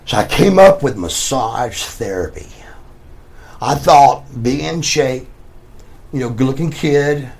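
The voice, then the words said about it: Southern American accent. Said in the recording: “southern accent”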